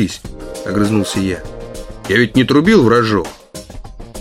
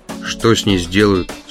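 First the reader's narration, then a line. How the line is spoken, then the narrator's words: Plain. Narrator (Russian): спросил я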